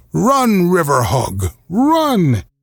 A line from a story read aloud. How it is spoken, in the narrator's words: Keo laughed his jolly guck, guck, guck, guck